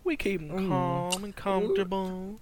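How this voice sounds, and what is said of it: Put-on yuppie southern accent. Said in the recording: “he did that really yuppie southern accent ... he sounds like that cartoon in. Character ... The big rooster from Looney Tunes ... Foghorn Leghorn”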